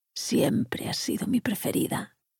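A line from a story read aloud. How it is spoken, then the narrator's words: Whispering in ear. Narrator (Spanish): le susurró al oído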